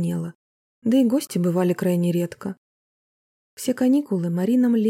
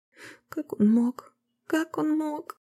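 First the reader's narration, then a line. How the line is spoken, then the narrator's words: Bitter sobbing. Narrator (Russian): В очередной раз горько всхлипнула Марина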